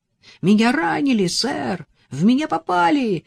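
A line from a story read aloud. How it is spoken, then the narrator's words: Young soldier exclaiming. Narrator (Russian): воскликнул самый молодой солдат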